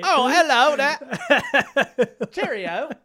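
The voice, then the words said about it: Put-on Cockney British accent. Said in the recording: “no idea how to do a British accent, right. So it's just Cockney.”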